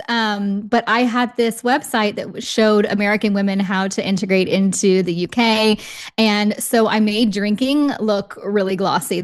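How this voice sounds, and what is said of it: American accent, not British. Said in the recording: “You can probably hear in my accent, I am not British ... American expat women”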